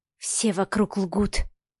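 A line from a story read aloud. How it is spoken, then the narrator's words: Breathed out. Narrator (Russian): выдохнула Машка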